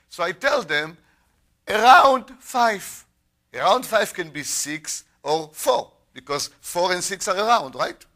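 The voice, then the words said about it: Speaks with a foreign accent. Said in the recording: “my accent? It's too late to change my accent”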